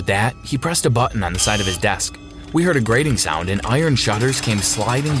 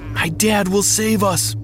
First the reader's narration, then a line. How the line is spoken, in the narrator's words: cried